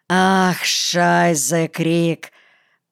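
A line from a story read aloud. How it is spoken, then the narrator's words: German man sighing. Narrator (Russian): Вздохнул немец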